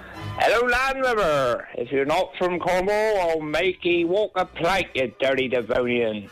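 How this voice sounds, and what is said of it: Scary put-on pirate accent. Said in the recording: “do your pirate impression... Say it in a pirate accent... That was quite scary”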